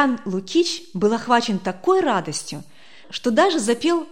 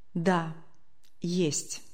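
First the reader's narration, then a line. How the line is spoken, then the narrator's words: Quiet, embarrassed, remorseful. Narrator (Russian): как-то тихо, точно конфузясь или каясь в совершенном поступке, произнес Матюнин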